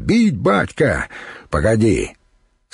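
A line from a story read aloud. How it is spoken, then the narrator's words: Eager excited shout. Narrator (Russian): хузарин Йонах азартно выкрикнул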